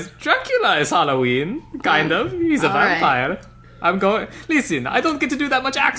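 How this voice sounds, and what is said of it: Usual voice. Nothing is said of it.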